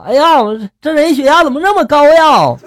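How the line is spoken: Nurse shouting. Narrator (Chinese): 护士就喊了

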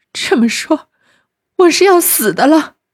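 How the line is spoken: Crying. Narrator (Chinese): 袭人哭道

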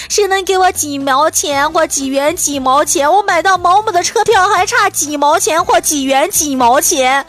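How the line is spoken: Elderly people calling out. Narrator (Chinese): 老大爷老大妈在喊

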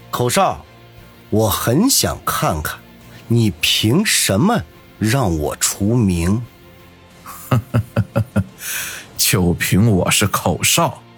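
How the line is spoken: Stern, measured, word by word. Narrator (Chinese): 张老板面色一沉…一字一顿地说道

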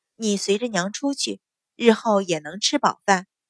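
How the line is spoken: Sighing. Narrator (Chinese): 阮云欢叹了口气，说道

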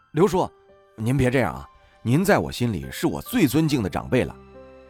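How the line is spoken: Hurried. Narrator (Chinese): 我急忙说道

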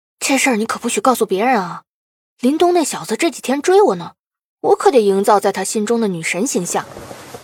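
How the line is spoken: Blushing fierce whisper. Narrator (Chinese): 关小敏脸色一红，恶狠狠地轻声说道

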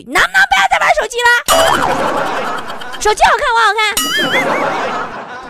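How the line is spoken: Calling out. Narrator (Chinese): 向对方互相喊一句

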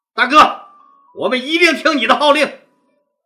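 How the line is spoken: Shouting in unison. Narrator (Chinese): 大家 一齐 大声喊道

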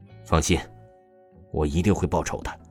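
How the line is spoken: Furious, resentful. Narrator (Chinese): 一个心腹无比愤怒而又不甘心的说道

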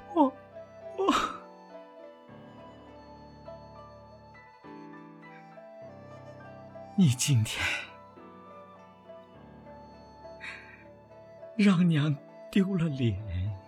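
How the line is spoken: Crying. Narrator (Chinese): 我哭着说

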